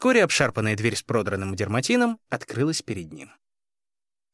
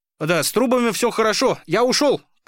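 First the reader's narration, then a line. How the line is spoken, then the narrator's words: Shouting. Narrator (Russian): крикнул участковый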